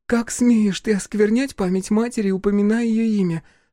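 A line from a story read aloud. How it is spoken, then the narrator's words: Trembling voice. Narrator (Russian): спросила Диана дрожащим голосом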